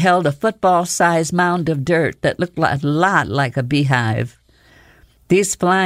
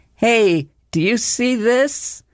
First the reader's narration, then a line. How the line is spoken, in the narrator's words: Alora shouted to me